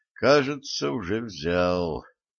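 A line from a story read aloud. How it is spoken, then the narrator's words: Muttered. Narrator (Russian): пробормотал Валентин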